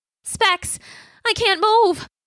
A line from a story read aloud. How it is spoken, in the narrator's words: his voice panicky